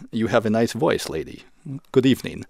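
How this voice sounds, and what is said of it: Put-on Russian accent. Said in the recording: “a Russian accent came to you. You have to pardon my Russian accent”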